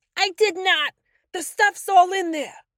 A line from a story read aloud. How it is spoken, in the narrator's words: yelled back